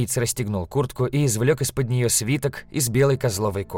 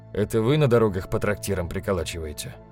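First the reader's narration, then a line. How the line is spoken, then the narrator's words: Quiet. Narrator (Russian): сказал он тихо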